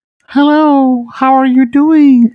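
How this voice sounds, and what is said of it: Attempted Marcel the Shell voice. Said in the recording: “I tried to do my Marcel voice, and you know what? I'll leave the Jenny Slate for that one. ... I definitely think it needs some work.”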